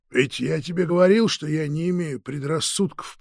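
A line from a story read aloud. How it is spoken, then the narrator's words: Muttering. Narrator (Russian): пробормотал Василий Иванович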